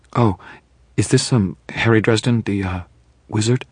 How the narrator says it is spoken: Her tone was apologetic, as though she were terribly afraid she would be insulting me

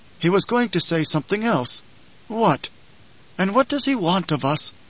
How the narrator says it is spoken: Howitt sighed

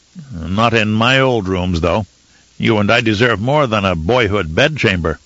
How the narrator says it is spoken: With a small chuckle, he said

